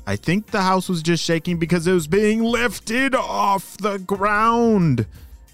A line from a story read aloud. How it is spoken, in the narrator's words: she shouted